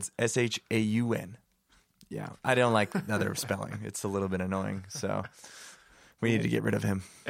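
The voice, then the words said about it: Hoarse, nearly lost voice. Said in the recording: “my voice is. I've lost my voice. ... the other guy sounds a lot different today.”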